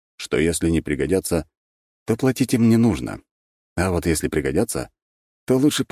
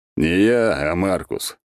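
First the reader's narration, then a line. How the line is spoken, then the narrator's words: Big man's grunt. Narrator (Russian): хмыкнул здоровяк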